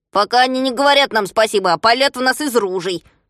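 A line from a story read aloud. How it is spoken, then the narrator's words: Grumbling. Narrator (Russian): проворчал Шпунтик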